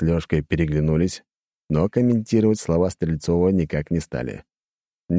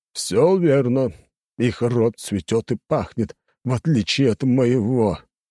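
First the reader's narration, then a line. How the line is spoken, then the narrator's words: Old man through teeth. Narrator (Russian): процедил сквозь зубы старик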